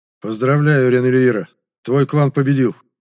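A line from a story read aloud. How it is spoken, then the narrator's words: Muffled, hollow voice. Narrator (Russian): глухо произнес Нородомастра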